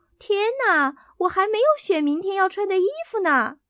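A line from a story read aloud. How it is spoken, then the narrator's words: Loud cry. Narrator (Chinese): 多洛瑞大声叫道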